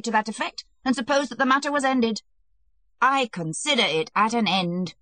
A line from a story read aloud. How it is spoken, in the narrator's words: shrieked Alexei Alexandrovitch